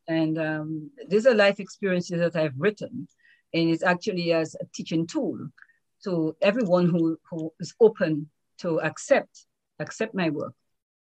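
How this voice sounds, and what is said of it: Lyrical Caribbean Dominican accent. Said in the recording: “your accent is beautiful. It's so lyrical. And you grew up on the Commonwealth of Dominica, which is a small island in the Caribbean.”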